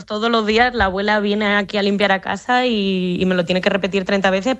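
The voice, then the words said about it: Spanish accent leaning toward Madrid. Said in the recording (Spanish): “el acento es un poco tirando de Madrid”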